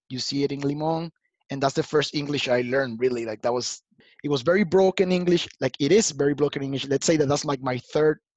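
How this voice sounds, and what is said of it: Latino accent with slight Jamaican tinge. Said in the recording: “I have my accent, my Latino accent, and sometimes it's a little bit Jamaican accent as well.”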